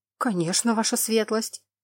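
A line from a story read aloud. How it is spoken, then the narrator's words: Frightened reply. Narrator (Russian): испуганно отозвался мужчина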